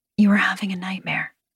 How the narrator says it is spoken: I whisper

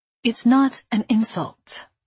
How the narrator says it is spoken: Zosita said, a little more gently

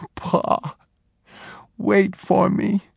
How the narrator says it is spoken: He sobbed

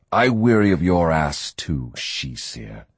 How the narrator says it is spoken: Riordan growled

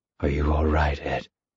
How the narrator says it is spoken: asked quietly

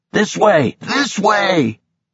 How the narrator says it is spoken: Pilot shouted

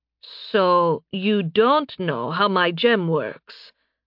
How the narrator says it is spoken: Narime said slowly

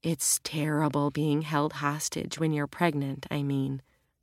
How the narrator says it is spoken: Annalena said gently

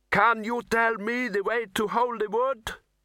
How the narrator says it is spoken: The boy shouted

